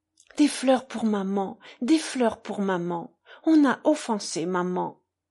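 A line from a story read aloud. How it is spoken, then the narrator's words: Sudden exclamation. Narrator (French): s'exclama-t-il soudain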